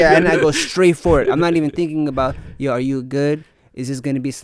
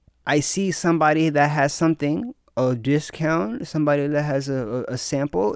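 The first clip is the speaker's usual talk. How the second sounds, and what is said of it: Spoken with a put-on accent. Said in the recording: “you said that with an accent.”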